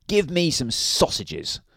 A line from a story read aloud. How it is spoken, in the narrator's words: snapped Mr